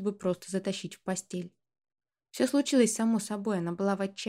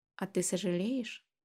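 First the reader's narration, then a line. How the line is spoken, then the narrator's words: Very quiet question. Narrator (Russian): спросила очень тихо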